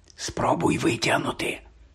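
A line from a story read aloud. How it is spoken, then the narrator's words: Whisper. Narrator (Ukrainian): прошепотів Рон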